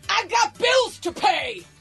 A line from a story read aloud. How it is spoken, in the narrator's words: And apparently also shouting